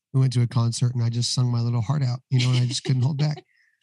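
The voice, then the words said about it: Strained, partly lost voice. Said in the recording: “excuse my voice ... because it's coming back, but I've lost it over the past couple weeks”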